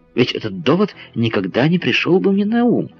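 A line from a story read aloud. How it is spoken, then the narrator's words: Exclaiming. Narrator (Russian): воскликнул Паганель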